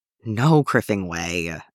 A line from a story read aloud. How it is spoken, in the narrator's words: Ezra groaned